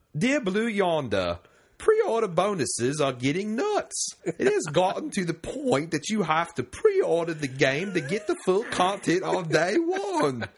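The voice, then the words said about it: Poor jolly British accent. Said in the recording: “I'm horrible at accents. In fact, for entertainment value, I'm going to try a jolly British accent.”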